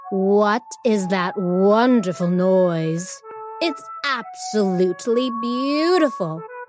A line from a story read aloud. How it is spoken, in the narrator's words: she purred